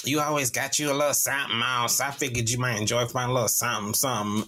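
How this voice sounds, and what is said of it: Imitates another person's voice. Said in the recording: “That's how I do her voice. ... she don't sound like that”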